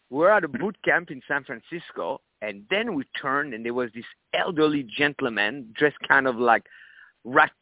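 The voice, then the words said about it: Strong foreign accent. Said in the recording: “initially I had a strong accent ... with my accent, people are not going to understand me ... even up to this day. Somebody goes, oh, you have an accent. Where are you from?”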